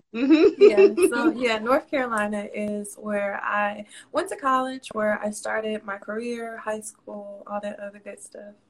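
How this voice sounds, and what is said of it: Southern US accent. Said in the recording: “You can kind of hear it in my accent... I knew that it was south”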